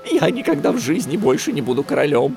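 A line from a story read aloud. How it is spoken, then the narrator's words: Frightened. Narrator (Russian): испуганно ответил тот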